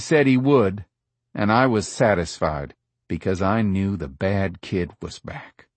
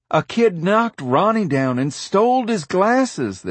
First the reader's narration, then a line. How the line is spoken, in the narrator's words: this boy shouted